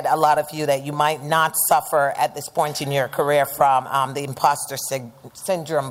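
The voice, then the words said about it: Jamaican accent. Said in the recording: “I was really trying to erase my accent ... I hail from the sunny island of Jamaica. So don't ask me where my accent's in from”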